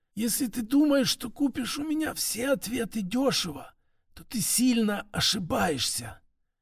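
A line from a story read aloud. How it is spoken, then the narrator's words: Barely audible, through teeth. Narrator (Russian): в полголоса сквозь зубы едва различимо произнесла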